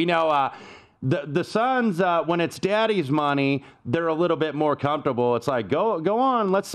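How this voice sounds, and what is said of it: Usual voice. Nothing is said of it.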